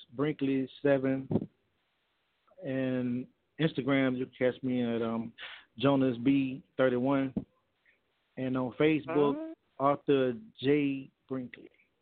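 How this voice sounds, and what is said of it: Southern American accent. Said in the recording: “You can tell a Southern man when the Southern man gets nervous and you start to hear their accent. I just heard his Southern accent the whole time.”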